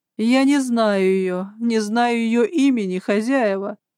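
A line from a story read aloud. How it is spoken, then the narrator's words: Wailing. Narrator (Russian): взвыла Лидия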